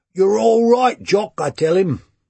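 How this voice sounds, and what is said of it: Put-on Cockney accent. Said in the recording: “in my best Cockney”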